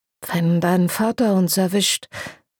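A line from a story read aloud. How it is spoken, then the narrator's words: Murmur. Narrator (German): murmelte er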